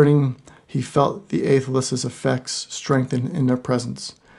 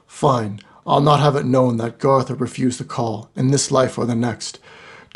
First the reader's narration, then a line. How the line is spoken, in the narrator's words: Grumbling, Garthur responded